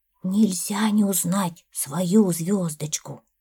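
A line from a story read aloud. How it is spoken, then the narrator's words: Whispered reply. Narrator (Russian): почему-то шепотом отозвался лягушонок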